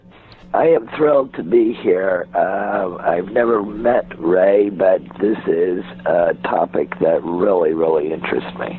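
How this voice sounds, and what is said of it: Sick, rough-sounding voice. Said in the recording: “apologize for my voice. I have the flu ... It sounds terrible ... it's not as bad as you think”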